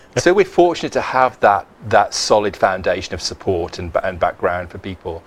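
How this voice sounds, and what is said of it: Tennessee Southern accent. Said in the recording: “I previously worked in Tennessee... In Tennessee, that's where the accent comes from.”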